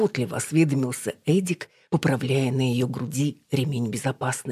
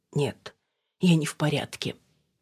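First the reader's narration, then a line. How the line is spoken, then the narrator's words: Whisper with sniffle. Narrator (Russian): прошептала Алина и шмыгнула носом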